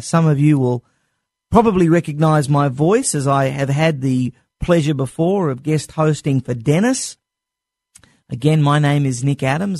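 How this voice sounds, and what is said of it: Non-American foreign accent. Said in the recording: “as all of you can very clearly tell from my accent, I was not born in the United States of America”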